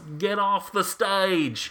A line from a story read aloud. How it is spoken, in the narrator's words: someone yells